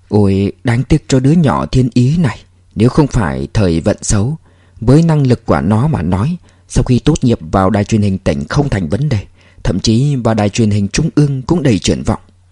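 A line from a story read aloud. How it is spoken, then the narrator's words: Sad sigh, old man. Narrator (Vietnamese): ánh mắt lão tiên sinh chợt ảm đạm xuống, thở dài nói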